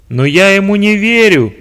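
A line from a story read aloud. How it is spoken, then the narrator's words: Shouted. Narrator (Russian): прокричал начальник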